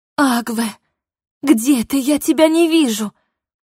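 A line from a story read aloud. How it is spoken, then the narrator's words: Strangled hoarse rasp. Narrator (Russian): Едва смогла выдавить я, будто это как-то могло помочь мне кричать громче, а не издавать придушенный хрип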